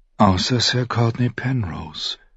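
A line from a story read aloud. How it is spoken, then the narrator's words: Murmured. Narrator (German): murmelte Caitlin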